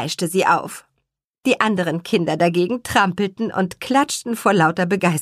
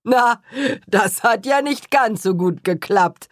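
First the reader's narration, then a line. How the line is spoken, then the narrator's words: Cheerful laugh. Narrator (German): lachte Herr Kuchenbrand vergnügt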